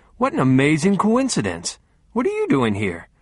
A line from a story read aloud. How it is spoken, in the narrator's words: I said cheerfully